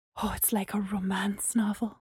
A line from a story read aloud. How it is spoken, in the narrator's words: Gemma said under her breath